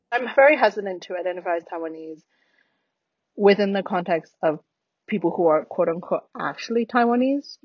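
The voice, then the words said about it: American accent with British influence. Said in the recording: “my accent in English is very much who I am, which is an American that spent 10 years in the UK”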